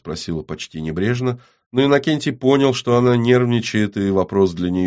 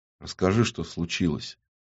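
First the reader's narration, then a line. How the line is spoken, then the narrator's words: Quiet, very serious request. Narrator (Russian): тихо и очень серьезно попросил он в ответ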